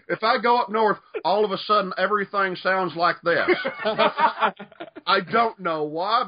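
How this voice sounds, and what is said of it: Put-on Southern drawl. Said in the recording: “I just start ringing out the southern drawl.”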